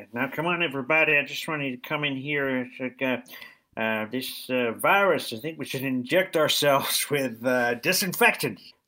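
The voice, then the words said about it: Poor impression of President Bartlett. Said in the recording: “Is that how he talks? ... doing an accent is a bit like trying to land on a runway ... you've missed the runway there ... Literally gone to the wrong continent.”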